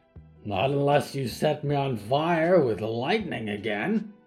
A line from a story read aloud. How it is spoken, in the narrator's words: Big Mikey growled